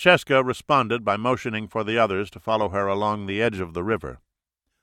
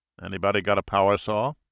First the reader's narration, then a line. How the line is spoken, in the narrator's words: he said